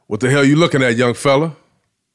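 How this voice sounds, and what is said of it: Deep quoted voice. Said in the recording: “you hear this deep voice,”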